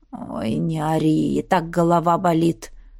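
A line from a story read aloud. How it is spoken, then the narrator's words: Sighing. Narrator (Russian): вздохнул тот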